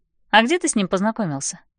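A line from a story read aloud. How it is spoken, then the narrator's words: Forced calm. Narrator (Russian): Я стараюсь говорить спокойно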